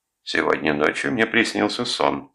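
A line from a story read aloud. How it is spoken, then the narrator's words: Plain. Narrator (Russian): сказала она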